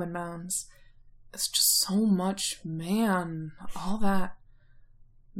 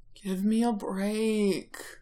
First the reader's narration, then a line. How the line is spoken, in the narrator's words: Roman whines